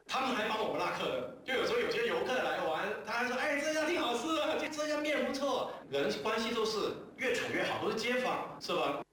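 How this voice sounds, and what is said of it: Slight southern Chinese accent. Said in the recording (Chinese): “说话带点南方口音”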